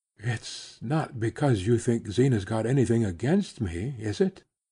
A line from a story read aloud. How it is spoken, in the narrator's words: without turning her head or lifting her lids, she said in a low tone